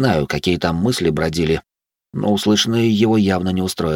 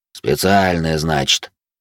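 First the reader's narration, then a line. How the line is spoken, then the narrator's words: Grumbling. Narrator (Russian): проворчал динамит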